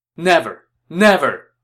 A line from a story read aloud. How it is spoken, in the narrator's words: Shen Pei shouted